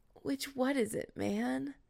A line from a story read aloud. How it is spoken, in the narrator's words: whined